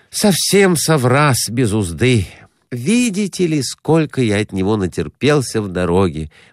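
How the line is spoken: Sigh. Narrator (Russian): вздохнул Перехватов

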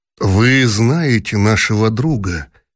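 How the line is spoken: Gentle objection. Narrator (Russian): мягко возразил князь Куракин

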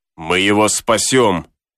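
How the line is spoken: Sailor exclaiming. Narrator (Russian): воскликнул моряк

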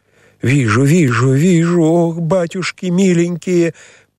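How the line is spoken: Terrified scream. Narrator (Russian): Прерывая чтение, закричала Киликея Кликуша, вся бледная, с искаженным лицом и неподвижным взором широко открытых глаз

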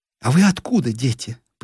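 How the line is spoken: Curious question. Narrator (Russian): Поинтересовалась Нина

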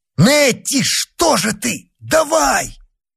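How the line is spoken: Shouted. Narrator (Russian): Он крикнул

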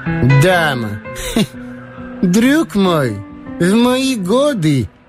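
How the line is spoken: Feigned bitter laugh. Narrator (Russian): Он рассмеялся, сделанной горечью и разочарованием

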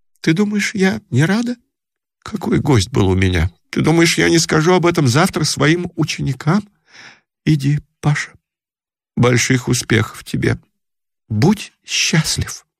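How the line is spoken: Trembling voice. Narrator (Russian): сказала вздрагивающим голосом

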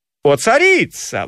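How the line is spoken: Exclamation. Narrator (Russian): воскликнул Одиссей

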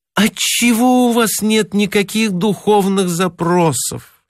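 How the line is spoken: Moaning. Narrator (Russian): стонала она

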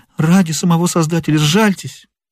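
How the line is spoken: Exclamation. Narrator (Russian): воскликнул он

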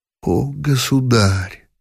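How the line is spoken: Breathless whisper. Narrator (Russian): могла только прошептать француженка

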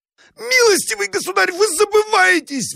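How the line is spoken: Shrill squeal. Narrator (Russian): взвизгнул Абогин

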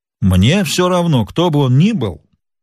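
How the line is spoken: Plain. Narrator (Russian): сказал Сильвер

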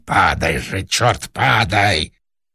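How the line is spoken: Fierce shouted whisper. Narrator (Russian): режиссер страшным шепотом крикнул

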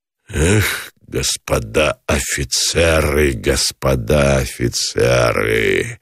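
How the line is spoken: Exhaled through unclenched jaws. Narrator (Russian): Выдохнул Гранатуров, разжав сцепленные челюсти

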